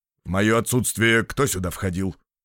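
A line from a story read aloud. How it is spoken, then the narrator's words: Stern question. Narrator (Russian): строго спросил депутат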